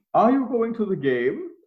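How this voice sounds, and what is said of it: Weak put-on German accent. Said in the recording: “I want to do a German accent. ... did you say you were going to do a German accent? ... that was my German accent.”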